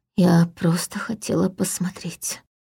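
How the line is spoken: Trembling voice. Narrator (Russian): дрожащим голосом сказала Ая

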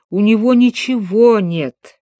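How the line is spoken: Moaning. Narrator (Russian): простонал дядюшка

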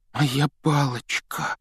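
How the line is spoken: Trembling voice. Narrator (Russian): дрожащим голосом произнес Рон

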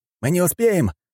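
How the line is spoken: Shouting. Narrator (Russian): крикнул Фанеров

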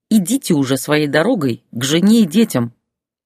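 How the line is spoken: Hateful hiss. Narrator (Russian): с ненавистью прошипела она

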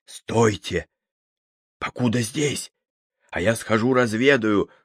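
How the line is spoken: Whispered command. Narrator (Russian): шепотом скомандовал Щукин

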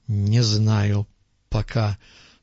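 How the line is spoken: Through gritted teeth. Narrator (Russian): сквозь зубы сказал он

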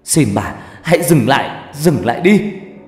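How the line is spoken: Anguished tearful scream. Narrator (Vietnamese): cảm giác này đau vô cùng, đau đến mức tôi phải gào lên trong nước mắt

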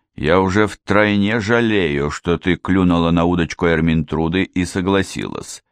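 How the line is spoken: Gloomy. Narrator (Russian): мрачно произнес сэр Уильям

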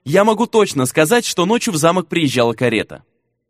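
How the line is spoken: Hurried rapid chatter. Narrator (Russian): поспешно затараторил Вета

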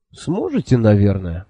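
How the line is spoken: Bewildered, smiling. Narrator (Russian): растерянно улыбнулся я

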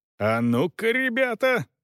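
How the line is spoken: Yelled. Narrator (Russian): заорал

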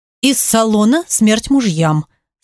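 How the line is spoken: Calm reply. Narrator (Russian): спокойно ответила

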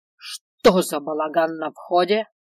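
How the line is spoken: Bark. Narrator (Russian): рявкнул Свендал

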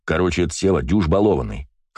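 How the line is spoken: Wry snort. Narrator (Russian): хмыкнул дядя Гоша

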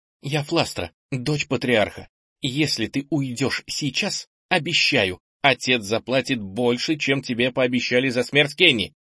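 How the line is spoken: Trembling, terrified voice. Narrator (Russian): Дрожащим голосом, испуганная до ужаса, сказала

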